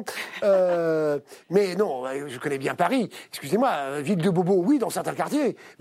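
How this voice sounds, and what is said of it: Marseille French accent. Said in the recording (French): “Je Marseillais, ça s'entend parfaitement à mon accent.”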